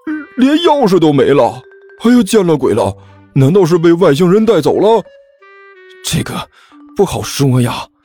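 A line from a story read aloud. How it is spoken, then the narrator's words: Glum whining. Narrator (Chinese): 老三哭丧着脸说道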